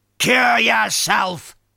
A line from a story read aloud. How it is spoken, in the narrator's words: snaps back